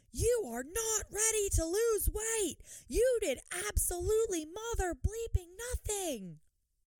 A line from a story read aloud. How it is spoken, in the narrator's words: a woman yelling, the woman starts screaming